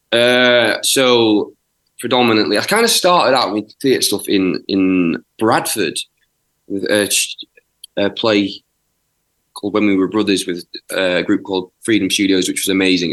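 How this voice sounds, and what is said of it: South Yorkshire English accent. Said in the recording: “I'm from South Yorkshire ... the accent sort of gives you away just a tad”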